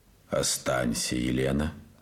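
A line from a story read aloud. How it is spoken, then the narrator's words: Calm. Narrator (Russian): сказал спокойно Морозов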